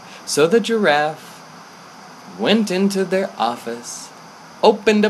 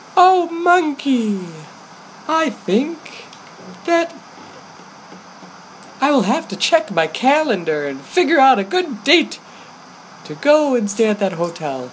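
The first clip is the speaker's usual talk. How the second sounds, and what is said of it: High-pitched giraffe character voice. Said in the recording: “It has a high voice.”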